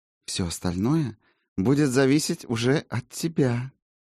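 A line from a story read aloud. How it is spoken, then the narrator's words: Purring close to ear. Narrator (Russian): промурлыкала в самое ухо Адате чародейка Солей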